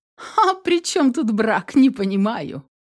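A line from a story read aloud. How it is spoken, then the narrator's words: Laughing question. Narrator (Russian): Смеясь, спросила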